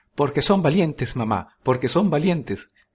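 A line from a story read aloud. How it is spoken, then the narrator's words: Shouting. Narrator (Spanish): gritó Oberon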